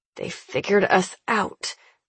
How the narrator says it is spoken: I growl, breaking a sweat

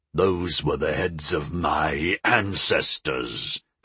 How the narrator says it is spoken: Gakal snarled

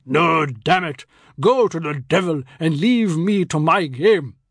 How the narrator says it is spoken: My uncle confronted temptation, then boomed above the din

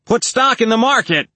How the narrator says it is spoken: the finance guy yelled

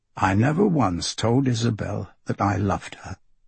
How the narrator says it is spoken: Marco says

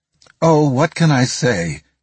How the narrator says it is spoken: she replied in a tremulous voice

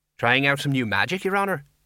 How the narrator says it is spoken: he said brightly

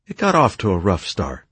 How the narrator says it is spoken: she replied

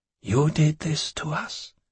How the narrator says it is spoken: he whispered

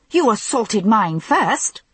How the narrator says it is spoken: I said hotly

